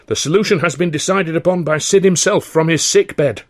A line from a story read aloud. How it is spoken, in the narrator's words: George interrupted firmly